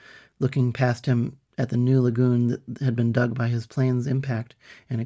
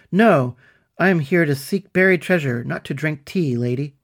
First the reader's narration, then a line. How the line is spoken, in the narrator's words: he snorted